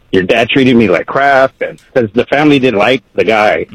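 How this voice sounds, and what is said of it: Emotional, choked-up voice. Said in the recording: “I get a little emotional.”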